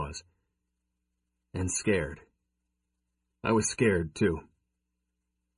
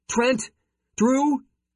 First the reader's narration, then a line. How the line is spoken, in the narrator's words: she yelled behind her as she rushed